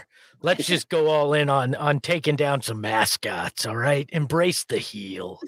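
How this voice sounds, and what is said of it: Imitates another person's voice. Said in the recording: “my Ron Wolfley impersonation.”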